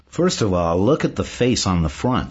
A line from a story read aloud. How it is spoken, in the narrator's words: Simon says